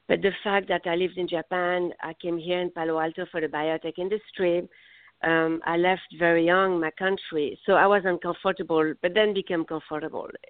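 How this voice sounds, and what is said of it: Heavy non-native accent. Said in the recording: “I'm not from here. I have a heavy accent”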